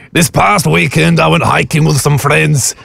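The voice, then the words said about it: Put-on Scottish accent. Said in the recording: “Scotland. That, do Scotland. ... That's hard, okay. But you're quite good at this.”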